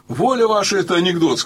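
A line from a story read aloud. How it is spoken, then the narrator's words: Plain. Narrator (Russian): сказал я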